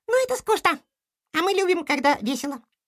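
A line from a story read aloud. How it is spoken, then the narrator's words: Squeaky voice. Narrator (Russian): пропищал Кроха Лемминг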